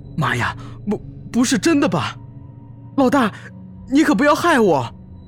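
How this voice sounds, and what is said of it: Trembling, frightened voice. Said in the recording (Chinese): “孙卓更是用颤抖的声音说”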